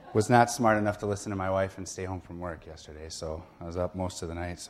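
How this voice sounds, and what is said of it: Sick, under-the-weather voice. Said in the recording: “I'm very much under the weather. If you can't hear it in my voice, I am.”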